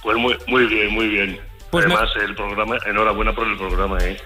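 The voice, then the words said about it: Sleepy, late-night radio voice. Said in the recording (Spanish): “Uy, estás dormidito. ... tengo la voz así, pero no estoy dormido. ... Tienes voz de locutor de noche.”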